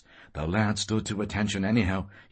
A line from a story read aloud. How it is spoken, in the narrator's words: he said with a sigh